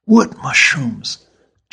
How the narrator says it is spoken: Jack whispered back

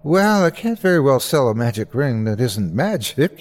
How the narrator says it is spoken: he laughed

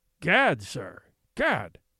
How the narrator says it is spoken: spluttered the Skookum Bench King

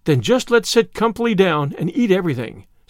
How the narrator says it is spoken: said Miss Lavendar happily

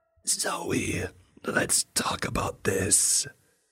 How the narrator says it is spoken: it hissed

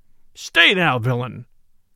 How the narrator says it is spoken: roared

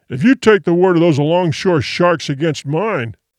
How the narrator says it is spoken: the other began thickly

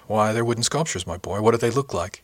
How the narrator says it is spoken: he said kindly

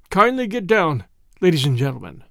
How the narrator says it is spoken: In Alsatian French, he requested the travelers to alight, saying stiffly

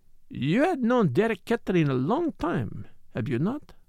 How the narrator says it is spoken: Poirot said gently

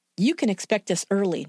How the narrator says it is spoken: Noller said in a clipped tone

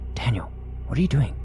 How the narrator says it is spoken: I whispered

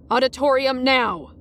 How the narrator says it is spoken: another teacher snapped at me to move along

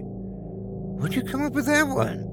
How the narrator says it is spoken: chuckled

